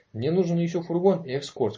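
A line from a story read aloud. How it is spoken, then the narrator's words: Plain. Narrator (Russian): сказал Конрад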